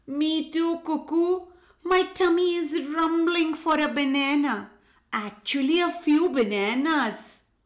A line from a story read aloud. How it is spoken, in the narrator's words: The porcupine pleaded